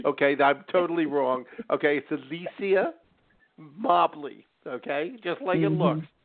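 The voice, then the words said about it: Philadelphia accent. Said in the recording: “my Philly accent ... that's my Philly accent popping out”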